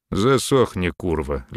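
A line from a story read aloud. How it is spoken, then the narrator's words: Lazy command. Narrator (Russian): лениво велел Мерин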